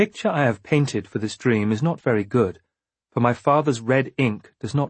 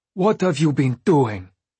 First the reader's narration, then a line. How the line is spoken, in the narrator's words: she demanded of me